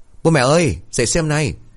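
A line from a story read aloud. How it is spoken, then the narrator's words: Loud shout. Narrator (Vietnamese): Nó liền hét lớn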